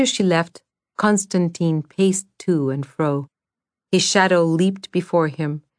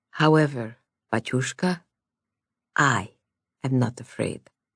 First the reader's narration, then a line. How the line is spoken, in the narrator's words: She hesitated and added very softly